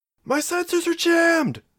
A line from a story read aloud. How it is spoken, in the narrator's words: shouted